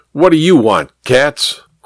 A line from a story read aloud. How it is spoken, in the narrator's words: Kramer barked without giving Julius a chance to speak